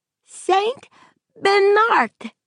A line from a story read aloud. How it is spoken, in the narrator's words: Tad cried